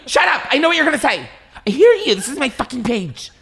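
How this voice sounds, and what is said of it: Imitates another person's voice. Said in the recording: “My impression of that is, like, so scary because I'm her”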